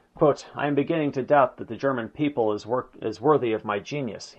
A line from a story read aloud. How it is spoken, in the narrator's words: he exclaimed